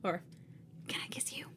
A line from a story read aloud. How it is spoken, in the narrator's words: I whisper into his mouth